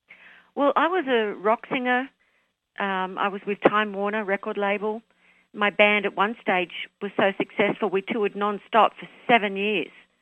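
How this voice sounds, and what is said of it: Australian accent. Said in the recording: “you're my second Australian accent”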